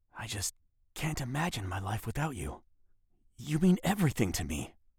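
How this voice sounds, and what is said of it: Whispered line. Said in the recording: “Here's a line in a whisper.”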